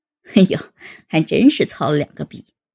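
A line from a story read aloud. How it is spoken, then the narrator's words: Laughing. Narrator (Chinese): 高原笑道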